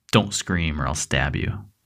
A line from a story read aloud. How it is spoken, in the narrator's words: the intruder growled at her